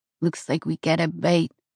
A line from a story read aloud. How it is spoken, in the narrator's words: Sebastian said